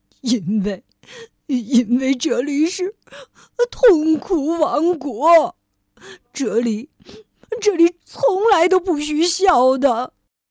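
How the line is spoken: King, crying answer. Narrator (Chinese): 国王哭着回答说

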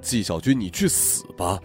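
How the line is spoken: Loud shout. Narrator (Chinese): 我大喊了一声

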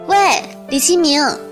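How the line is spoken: Calling out. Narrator (Chinese): 他叫我的声音

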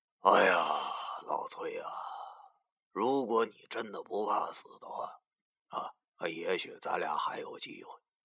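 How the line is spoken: Sighing. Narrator (Chinese): 叹了口气，对我说

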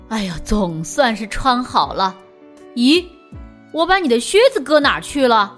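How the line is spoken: Laughing. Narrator (Chinese): 比利笑着说

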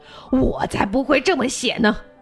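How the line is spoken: Roaring. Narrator (Chinese): 狮子大吼

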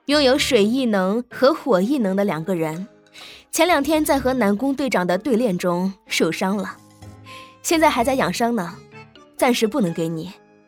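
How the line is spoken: Cutting in, laughing. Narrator (Chinese): 兰儿插口笑道

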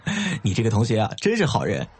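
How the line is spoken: Laughing. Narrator (Chinese): 张远笑着说

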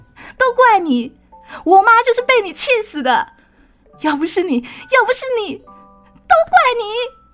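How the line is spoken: Fierce angry crowd. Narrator (Chinese): 前来吊唁的亲朋好友，气势汹汹，说着

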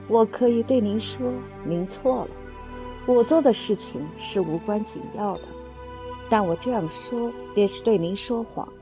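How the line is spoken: Tender, tearful. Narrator (Chinese): 我带着初涌而至的眼泪所造成的温柔口吻对他说

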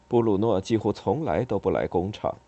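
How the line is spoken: Muttering. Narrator (Chinese): 他嘀咕说

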